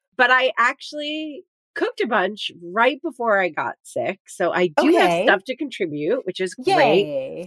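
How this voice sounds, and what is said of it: Sick, under-the-weather voice. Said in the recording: “as people can probably hear from my voice, I have been under the weather.”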